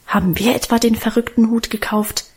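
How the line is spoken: Defiant mutter. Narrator (German): murmelte er trotzig

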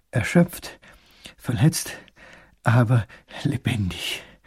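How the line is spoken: Panting. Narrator (German): keucht der kleine Großherzog

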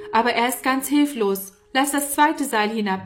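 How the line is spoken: Calling upward. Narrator (German): rief Norman herauf

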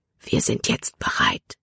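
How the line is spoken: Whisper. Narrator (German): flüsterte er

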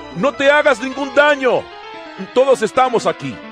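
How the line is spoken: Shouted. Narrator (Spanish): Pablo le gritó

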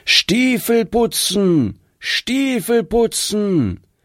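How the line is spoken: Loud calling. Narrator (German): hörte man ihn laut rufen

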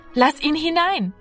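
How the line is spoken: Called out. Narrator (German): rief Martina

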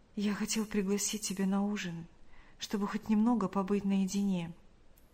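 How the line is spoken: Whispered. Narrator (Russian): прошептал он

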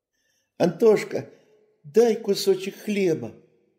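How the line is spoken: Shouting from afar. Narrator (Russian): закричал он уже издали

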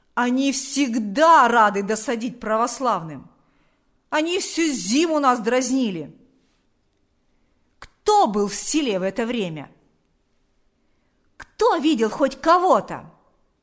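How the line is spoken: Shouted. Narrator (Russian): закричал Шила

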